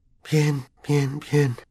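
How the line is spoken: Whisper. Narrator (Spanish): susurró Harry

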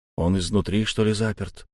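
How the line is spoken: Muttering. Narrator (Russian): пробормотал я

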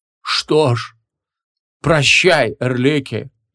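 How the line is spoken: Sighed. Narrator (Russian): вздохнул Хабум Молот

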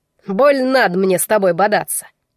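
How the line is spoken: Grumbled. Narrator (Russian): проворчал тот

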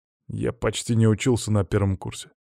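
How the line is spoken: Muttered grumble. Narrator (Russian): буркнул он

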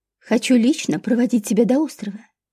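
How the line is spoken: Soft, smiling reply. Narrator (Russian): мягко улыбаясь, ответил Карл Антонович

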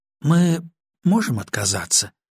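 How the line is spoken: Uncertain question. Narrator (Russian): спросила неуверенно

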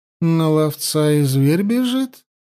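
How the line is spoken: Purring. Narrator (Russian): промурлыкала Янди

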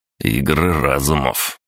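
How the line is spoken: Snort. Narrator (Russian): фыркнул

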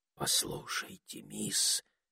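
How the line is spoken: Whispered. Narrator (Russian): шепнул Этельред

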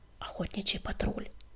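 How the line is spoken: Whispering. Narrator (Russian): шепнул Крутобок

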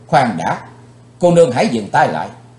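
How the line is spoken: Shouting. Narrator (Vietnamese): Chàng quát lên

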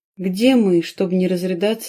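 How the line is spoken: Plain. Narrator (Russian): спросила девушка

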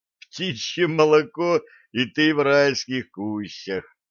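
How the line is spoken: Burst of laughter. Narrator (Russian): расхохотался Блад

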